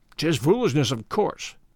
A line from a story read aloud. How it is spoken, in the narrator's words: said roughly